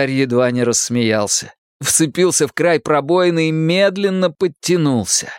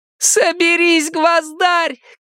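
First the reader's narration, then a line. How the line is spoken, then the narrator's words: Girl shouting. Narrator (Russian): крикнула везучая девочка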